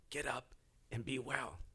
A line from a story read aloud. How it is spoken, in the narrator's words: he would have whispered in his ear